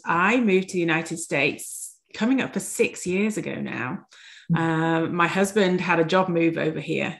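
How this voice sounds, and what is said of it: English Yorkshire accent. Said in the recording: “the first thing when they hear me speak is my accent. So I am originally from England. I'm from Yorkshire in England”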